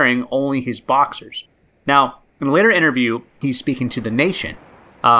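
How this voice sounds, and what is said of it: Usual voice. Nothing is said of it.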